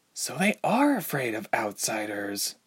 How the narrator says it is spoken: Ilse murmured aloud

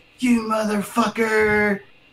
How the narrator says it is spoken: You hear him yelling

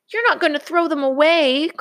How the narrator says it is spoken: cried Brother

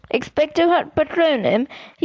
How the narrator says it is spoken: he gasped

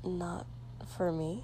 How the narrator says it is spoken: he said quietly

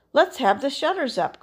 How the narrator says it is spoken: cried old Fezziwig

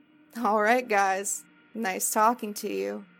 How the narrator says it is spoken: said, still chuckling to himself

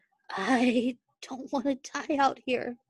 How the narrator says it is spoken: whispered

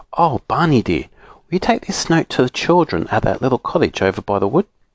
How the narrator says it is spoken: asked Silky in her sweetest voice

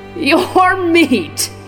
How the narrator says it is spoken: he roared

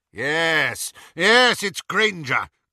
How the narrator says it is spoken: cried Lucius

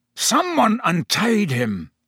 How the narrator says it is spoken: the executioner was snarling

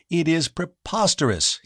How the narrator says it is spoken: he cried

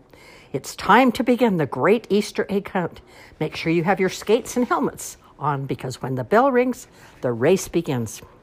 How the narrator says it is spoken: she shouted through a megaphone

